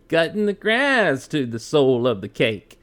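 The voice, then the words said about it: Poor imitation of another person's voice. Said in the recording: “you do a horrible Bob Dylan.”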